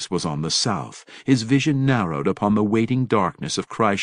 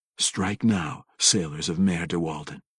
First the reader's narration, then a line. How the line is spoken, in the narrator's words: the drow said quietly